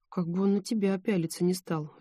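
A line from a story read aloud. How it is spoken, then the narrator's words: Sighing. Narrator (Russian): вздохнула Ольга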